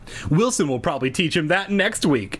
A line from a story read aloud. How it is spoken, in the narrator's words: she laughed